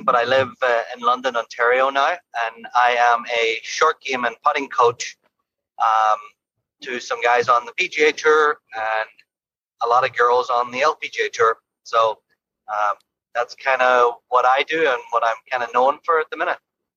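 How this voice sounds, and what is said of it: Irish accent. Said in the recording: “I am originally obviously from Ireland. That's why my accent”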